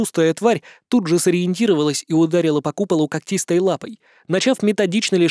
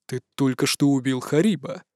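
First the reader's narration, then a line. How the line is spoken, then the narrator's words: Strange tone. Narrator (Russian): произнес виконт странным тоном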